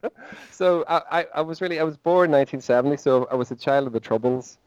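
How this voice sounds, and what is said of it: Northern Irish accent. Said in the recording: “as you can hear from my accent, John, I'm from Northern Ireland.”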